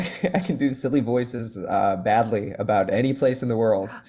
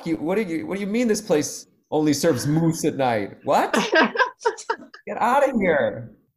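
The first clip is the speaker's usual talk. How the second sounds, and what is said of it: Good put-on small-town Canadian accent. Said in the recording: “You got good accents. ... That's really good, too”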